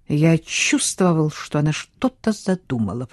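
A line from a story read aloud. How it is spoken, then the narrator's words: Muttering. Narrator (Russian): пробормотал Хьюго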